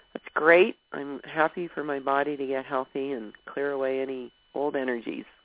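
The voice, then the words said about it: Congested, sniffly voice from a cold. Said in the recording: “I have a little bit of a sniffle I woke up with this morning. You can tell the way I'm talking. It's like I have a little bit of a cold.”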